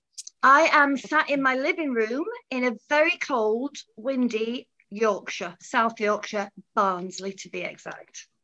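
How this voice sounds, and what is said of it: Yorkshire English accent. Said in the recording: “I kind of am starting to recognize a Yorkshire accent now”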